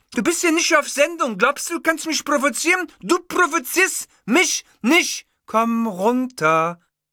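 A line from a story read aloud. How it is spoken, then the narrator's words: Loud. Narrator (German): sagte die Bellini jetzt laut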